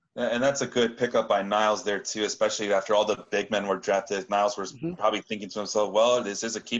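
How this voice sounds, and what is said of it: Usual voice. Nothing is said of it.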